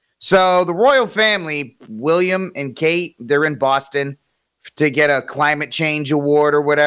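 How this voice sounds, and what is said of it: Usual voice. Nothing is said of it.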